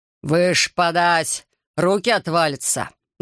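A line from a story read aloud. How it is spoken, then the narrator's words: Barked shout. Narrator (Russian): гаркнул он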